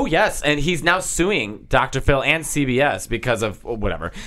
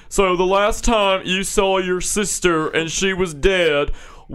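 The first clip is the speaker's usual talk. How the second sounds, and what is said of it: Imitates a TV host's voice. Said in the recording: “I think I do a pretty good Dr. Phil impression.”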